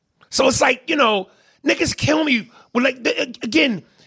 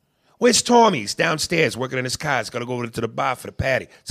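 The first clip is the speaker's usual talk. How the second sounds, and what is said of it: Put-on Boston accent. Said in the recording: “Bostonians. When Bostonians go, ka, pock, patty. That's an accent.”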